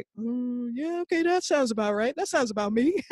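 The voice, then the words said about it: Imitates another person's voice. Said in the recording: “my best dad impression”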